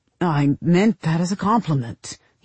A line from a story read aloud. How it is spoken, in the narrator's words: stammered